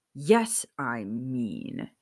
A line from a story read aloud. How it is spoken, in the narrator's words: Sirius growled